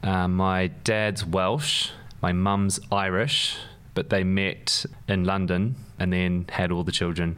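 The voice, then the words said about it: Speaks with a noticeable accent. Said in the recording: “I'm pretty sure everyone can hear. I've got an accent.”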